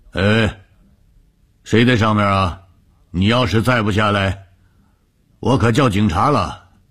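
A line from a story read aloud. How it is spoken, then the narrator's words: Calling out. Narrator (Chinese): 我却不信什么邪，我站在树下叫道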